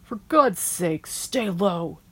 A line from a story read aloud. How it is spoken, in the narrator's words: barked out